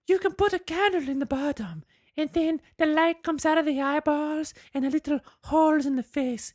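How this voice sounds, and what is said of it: Put-on Mexican woman's accent. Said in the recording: “I only got one Mexican lady accent”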